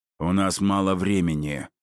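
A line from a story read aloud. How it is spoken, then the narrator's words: Growling. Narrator (Russian): прорычал Филин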